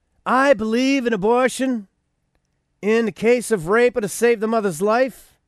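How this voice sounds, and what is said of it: Weak Donald Trump New York impression. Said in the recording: “I'm trying to do a New York rich guy accent, but I can't really pull that. I never could really do Donald Trump.”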